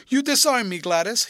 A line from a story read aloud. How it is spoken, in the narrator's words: he cried, catching the willfulness of her mood